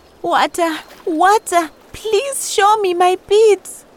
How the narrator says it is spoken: Upset by the thought of losing her beautiful jewelry forever, she cried out

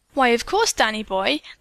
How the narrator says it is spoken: the little woman replied brightly

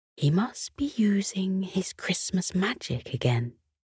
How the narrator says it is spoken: Her mother whispered back

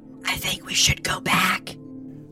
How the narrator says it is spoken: whispered BeeBop

